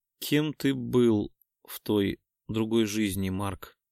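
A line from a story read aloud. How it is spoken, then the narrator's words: Sleepy blissful murmur. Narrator (Russian): сонно пробормотала моя Белоснежка, блаженно прищурившись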